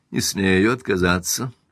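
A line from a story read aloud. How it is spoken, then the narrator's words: Icy reply. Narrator (Russian): ледяным тоном отвечал Каупервуд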